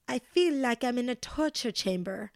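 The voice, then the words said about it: Put-on worldly-sounding accent. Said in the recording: “Did you guys kind of like my accent? ... That's my best Dorit accent ... Do I sound worldly in that accent now?”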